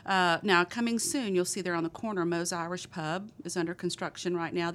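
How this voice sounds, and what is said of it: Thick Texas accent. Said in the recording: “my thick Texas accent”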